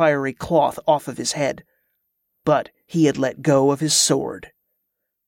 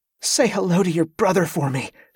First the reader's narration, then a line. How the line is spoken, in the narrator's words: panted